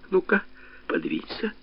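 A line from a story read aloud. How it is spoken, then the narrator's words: Father whispering. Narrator (Russian): папа сказал Женьке шепотом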